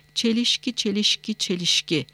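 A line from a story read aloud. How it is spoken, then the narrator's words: Muttered. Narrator (Turkish): diye mırıldandı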